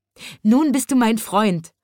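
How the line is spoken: Laughing little chimney sweep. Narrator (German): lachte der kleine Schornsteinfeger

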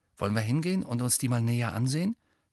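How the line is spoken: Plain question. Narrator (German): fragte Ron

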